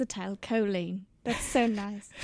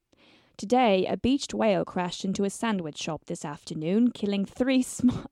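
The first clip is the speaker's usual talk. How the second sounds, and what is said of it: Attempted British accent. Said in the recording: “does everything sound nicer with a British accent? ... Should I try one?”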